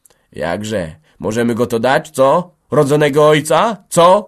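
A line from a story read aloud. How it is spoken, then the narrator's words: Shouting. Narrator (Polish): krzyczał Mateusz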